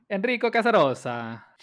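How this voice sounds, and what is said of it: Put-on Italian accent. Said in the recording (Spanish): “Ya sabía que ibas a hacer ese acento. ... el acento italiano”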